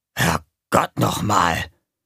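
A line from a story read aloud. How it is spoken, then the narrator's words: Muttering. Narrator (German): Gonko … murmelte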